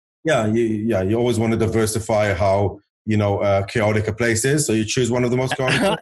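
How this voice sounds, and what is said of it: Mixed Israeli and South African accent. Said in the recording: “this weird accent, you can pick up that I'm not an Israeli accent original, but rather I grew up in South Africa”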